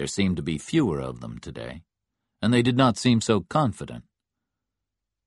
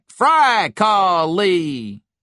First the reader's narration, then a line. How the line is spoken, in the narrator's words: But not as loudly as before